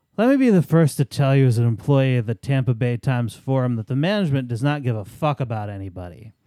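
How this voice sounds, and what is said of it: Put-on drunk voice. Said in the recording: “my drunk voice”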